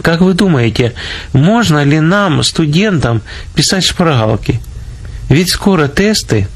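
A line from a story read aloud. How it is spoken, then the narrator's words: Timid students' question. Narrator (Russian): две студентки и робко спросили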